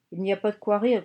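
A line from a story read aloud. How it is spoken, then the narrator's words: Young woman grumbling. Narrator (French): grommela la jeune femme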